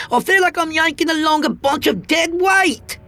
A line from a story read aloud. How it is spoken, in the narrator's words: she snapped at me